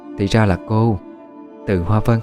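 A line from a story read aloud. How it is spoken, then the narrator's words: Soft smiling reply. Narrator (Vietnamese): Cô khẽ mỉm cười đáp lại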